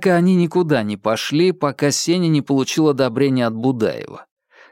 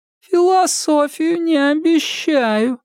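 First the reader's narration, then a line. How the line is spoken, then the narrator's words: Unpleasantly thin golem voice. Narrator (Russian): своим неприятно тонким голосом предупредил голем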